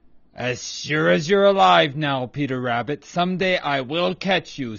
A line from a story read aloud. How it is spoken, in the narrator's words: snarled Reddy Fox